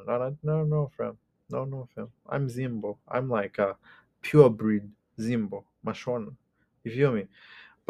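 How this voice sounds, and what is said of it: Zimbabwean accent often mistaken for French. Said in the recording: “they kind of associate my accent with the French one”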